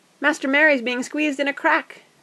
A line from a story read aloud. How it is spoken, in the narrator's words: cried Sam